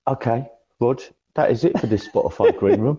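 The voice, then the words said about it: Michael Keane impression accent. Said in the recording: “your Michael Keane impression ... in your Michael Keane accent”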